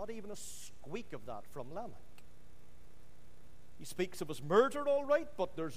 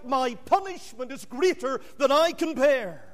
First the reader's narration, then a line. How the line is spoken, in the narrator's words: Cain showed some remorse when he wailed out